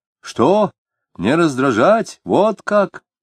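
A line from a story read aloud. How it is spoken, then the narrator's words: Shouting. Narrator (Russian): закричал Алябьев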